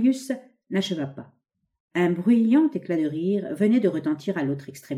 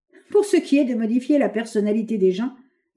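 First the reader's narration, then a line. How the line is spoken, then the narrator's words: Laughing. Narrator (French): dit en riant le nouveau venu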